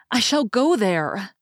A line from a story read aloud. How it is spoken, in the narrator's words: she cried rejoicingly